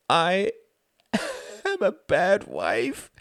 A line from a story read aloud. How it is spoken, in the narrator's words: she wailed